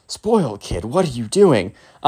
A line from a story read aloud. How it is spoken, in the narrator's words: the teacher's, like, under his breath, he's like